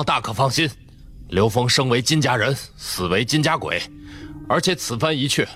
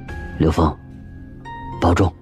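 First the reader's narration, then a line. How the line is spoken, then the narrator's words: Low, pained. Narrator (Chinese): 金潘面露一丝痛惜之情，低声嘱咐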